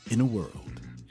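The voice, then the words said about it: Radio announcer voice. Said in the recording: “Dude, that voice. ... This is my radio voice. ... He sounds kind of like Spike Spiegel a little bit, like Steve Blum.”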